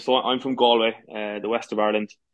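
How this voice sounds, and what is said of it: Irish accent from Galway. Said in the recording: “people can pick up from the accent, you know, where you're from”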